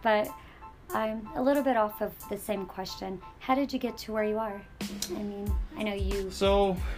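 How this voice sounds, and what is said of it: Hoarse, nearly lost voice. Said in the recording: “I sound like a duck. My voice has been gone.”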